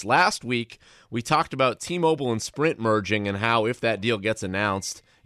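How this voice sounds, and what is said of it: Hoarse, congested voice. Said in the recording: “apologize for my voice in this episode in advance. I have a little bit of a cold.”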